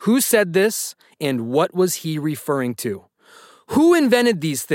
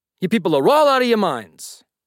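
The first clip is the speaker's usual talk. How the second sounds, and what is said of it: Puts on an accent. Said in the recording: “I'm trying to do it with an accent.”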